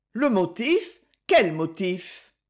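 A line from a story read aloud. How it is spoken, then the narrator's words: Small sneering laugh. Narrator (French): Lady Laurence eut un petit ricanement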